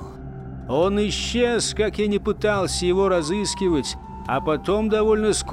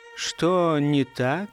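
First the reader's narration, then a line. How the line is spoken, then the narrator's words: Soft question. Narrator (Russian): мягко спросил я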